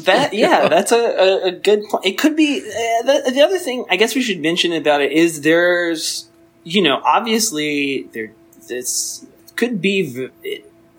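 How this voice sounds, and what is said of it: Stuttering, halting speech. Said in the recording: “I'm stuttering”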